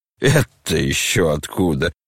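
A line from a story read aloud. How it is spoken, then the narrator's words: Laughing. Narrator (Russian): засмеялся Рогожин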